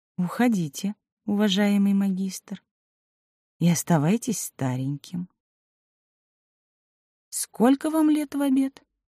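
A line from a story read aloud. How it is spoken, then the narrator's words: Calm, quiet. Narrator (Russian): Элина Веленовна спокойно и тихо сказала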